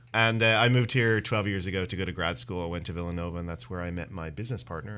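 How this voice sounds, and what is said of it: Irish accent. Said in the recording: “I'm actually originally from Dublin, Ireland... Couldn't tell from the accent.”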